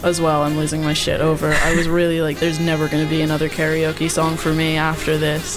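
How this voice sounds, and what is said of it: Mild New Jersey American accent. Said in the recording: “she's from America... She's from New Jersey. She's been living in London for a long time though, so she's got that nice, palatable American accent... It's not too in your face.”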